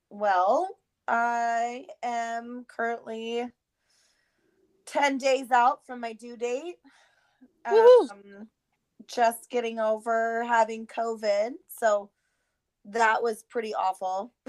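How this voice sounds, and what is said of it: Rough voice with lingering cough. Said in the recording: “I sound a little rough right now. Still dealing with the cough”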